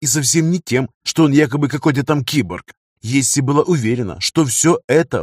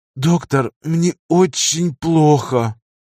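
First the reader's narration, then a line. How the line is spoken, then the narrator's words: Anguished moan. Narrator (Russian): С надрывом простонала Есси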